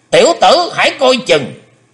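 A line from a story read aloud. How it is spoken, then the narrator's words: Sudden loud shout. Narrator (Vietnamese): Thình lình Hải Âu quái khách quát lớn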